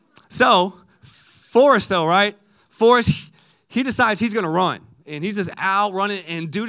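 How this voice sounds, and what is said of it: Usual voice. Nothing is said of it.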